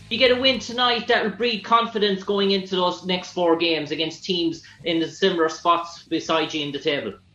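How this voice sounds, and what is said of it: Irish accent. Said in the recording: “Where are you from? ... Ireland. ... I like your accent. I want to learn how to talk like that. ... I was too much listening to your accent.”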